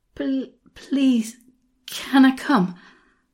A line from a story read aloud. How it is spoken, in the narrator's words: I panted at him